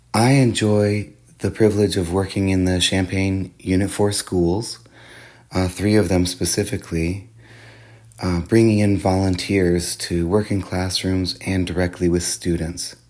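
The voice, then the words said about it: Congested, stuffy-sounding voice. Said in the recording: “I apologize for my voice. It sounds a little different because I've caught a cold this week ... does change the way I sound”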